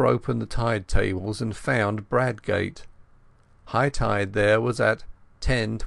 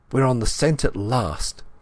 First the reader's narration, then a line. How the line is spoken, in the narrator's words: I cried excitedly